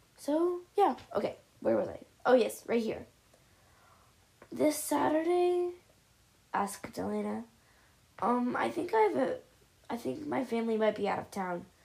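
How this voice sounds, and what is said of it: Dry, not-regular sounding voice. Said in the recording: “I'm sorry if my voice is, like, not regular, I guess you would call that. My throat was very dry the other day”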